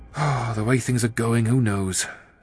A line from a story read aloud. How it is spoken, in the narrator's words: said Andy with a sigh